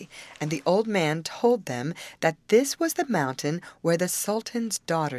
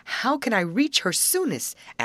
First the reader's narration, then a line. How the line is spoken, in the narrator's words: asked eagerly